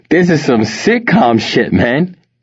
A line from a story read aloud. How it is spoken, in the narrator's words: Tony declared, laughing